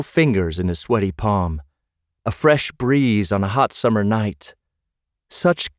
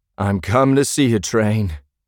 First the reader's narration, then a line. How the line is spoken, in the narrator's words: slurred